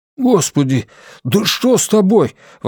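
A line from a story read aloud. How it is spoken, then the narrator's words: Exclaiming. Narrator (Russian): воскликнул Блейз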